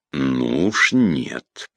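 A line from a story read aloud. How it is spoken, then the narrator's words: Hissed. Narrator (Russian): прошипел Петр Иванович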